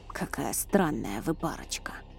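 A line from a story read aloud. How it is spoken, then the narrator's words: Old man grumbling. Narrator (Russian): пробурчал старец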